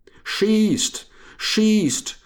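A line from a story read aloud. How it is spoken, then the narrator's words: Shouting colonel. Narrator (German): schrie der Oberst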